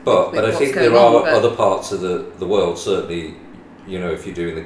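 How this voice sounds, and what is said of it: West Midlands English accent. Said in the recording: “we come from the West Midlands, as people could probably gather by my accent”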